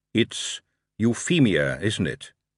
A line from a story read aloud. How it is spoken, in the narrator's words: he said